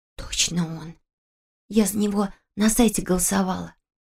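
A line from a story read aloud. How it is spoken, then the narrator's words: Whispering student. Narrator (Russian): прошептала студентка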